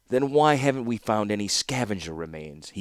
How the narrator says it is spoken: he asked scornfully

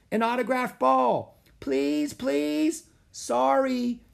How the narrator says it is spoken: yelled Annie

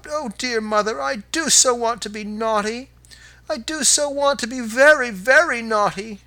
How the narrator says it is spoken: she sobbed

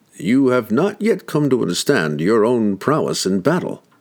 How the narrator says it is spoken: he laughed

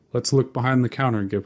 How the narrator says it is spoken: I said

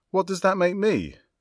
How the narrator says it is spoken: I blurted, with barely concealed bluster

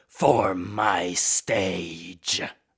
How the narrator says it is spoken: howling a command

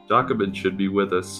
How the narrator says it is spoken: Salafiel finally said

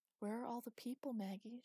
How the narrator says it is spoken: she said, softly

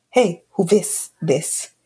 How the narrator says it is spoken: I said in a rude tone

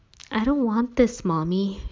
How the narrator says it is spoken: whispered

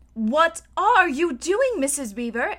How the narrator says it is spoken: exclaimed Susan

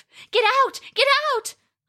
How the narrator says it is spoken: cried Roska

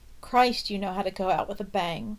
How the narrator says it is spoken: Nate is exclaiming at Pippa

